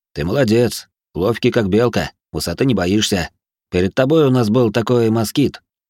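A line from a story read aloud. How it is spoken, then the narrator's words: Restrained chuckle. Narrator (Russian): Грохот сдержанно хохотнул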